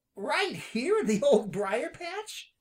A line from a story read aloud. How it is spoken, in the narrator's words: asked Peter excitedly